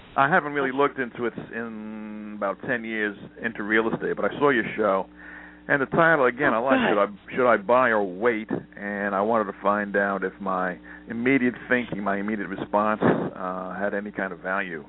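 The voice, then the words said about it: Northeastern US accent. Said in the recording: “your accent sounds like you're Northeast ... people attach my accent to either New York, Boston, or New Jersey ... I say New York.”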